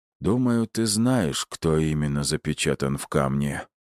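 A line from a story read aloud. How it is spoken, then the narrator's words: Mild grumble, old man. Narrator (Russian): беззлобно проворчал старичок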